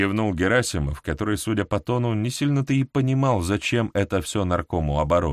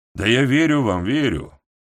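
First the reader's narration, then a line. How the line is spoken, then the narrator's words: Flat colorless voice. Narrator (Russian): бесцветным голосом произнес Михаил Михайлович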